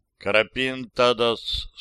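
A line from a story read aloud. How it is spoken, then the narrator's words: Plain. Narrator (Russian): сказал он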